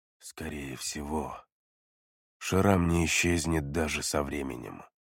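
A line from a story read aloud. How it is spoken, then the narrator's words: Worried near-whisper. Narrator (Russian): обеспокоенно отметил Бай Циу практически шепотом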